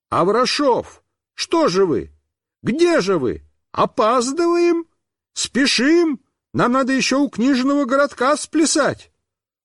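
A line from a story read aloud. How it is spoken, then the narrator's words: Clown shouting. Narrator (Russian): какой-то клоун закричал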